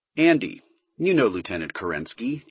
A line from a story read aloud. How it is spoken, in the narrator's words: Duval said in a curiously neutral tone of voice